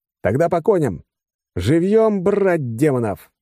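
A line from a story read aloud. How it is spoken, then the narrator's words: Yell. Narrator (Russian): заорал я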